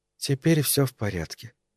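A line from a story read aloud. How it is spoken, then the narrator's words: Whisper. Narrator (Russian): прошептала она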